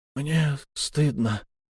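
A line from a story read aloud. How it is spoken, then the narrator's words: Hoarse wheeze. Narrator (Russian): просипел Шон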